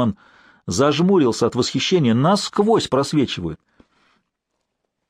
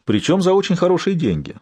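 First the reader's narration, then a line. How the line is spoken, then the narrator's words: Calm reply. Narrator (Russian): спокойно ответил профессор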